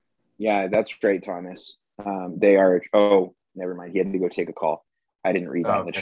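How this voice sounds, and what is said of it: Usual voice. Nothing is said of it.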